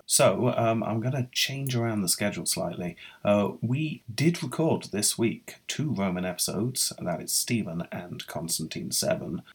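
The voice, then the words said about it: Unwell, sick-sounding voice. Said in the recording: “I'm not feeling very well, which you might be able to hear in my voice.”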